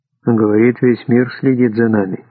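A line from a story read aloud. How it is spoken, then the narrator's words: Tired voice. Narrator (Russian): уставшим голосом ответил министр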